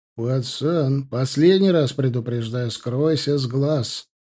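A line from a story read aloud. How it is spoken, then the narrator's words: Threatening bark. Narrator (Russian): рявкнул один из визитеров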